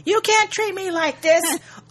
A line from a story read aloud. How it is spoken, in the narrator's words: all the while yelling